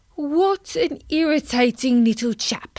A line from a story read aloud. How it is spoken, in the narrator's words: sighed Colin to himself